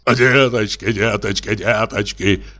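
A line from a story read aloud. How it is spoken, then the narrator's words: Rapid muttering. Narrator (Russian): бормотал он быстро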